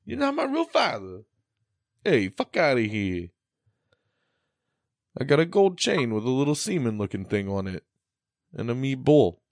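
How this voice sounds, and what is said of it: Put-on Italian accent. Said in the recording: “in an Italian accent”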